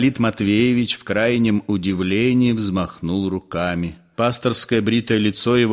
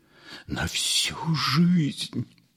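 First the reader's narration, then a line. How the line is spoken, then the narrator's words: Whispered. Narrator (Russian): прошептал Ипполит Матвеевич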